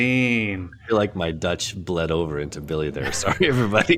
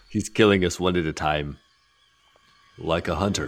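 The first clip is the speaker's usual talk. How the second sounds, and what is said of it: Deep, slightly accented character voice. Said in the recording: “Deep voice, kind of. ... a little bit accented voices. One's like Southern, one's Austrian.”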